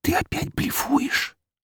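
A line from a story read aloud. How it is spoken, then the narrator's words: Accusing whisper. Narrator (Russian): обвиняюще шепнула она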